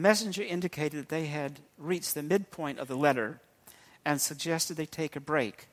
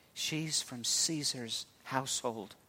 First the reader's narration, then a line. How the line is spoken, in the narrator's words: Someone whispered